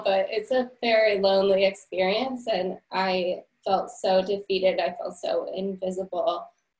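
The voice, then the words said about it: Teary, emotional voice. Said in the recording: “I'm getting a little teary right now”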